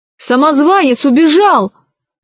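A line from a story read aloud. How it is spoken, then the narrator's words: Shouted. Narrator (Russian): закричал он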